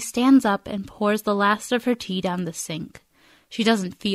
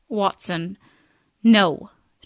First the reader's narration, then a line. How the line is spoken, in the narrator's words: she says sharply